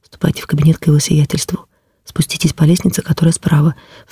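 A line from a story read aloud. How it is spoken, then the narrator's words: Whispered. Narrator (Russian): Настя шепнула мне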